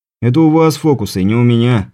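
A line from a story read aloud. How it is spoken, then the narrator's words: Snort. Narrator (Russian): хмыкнул я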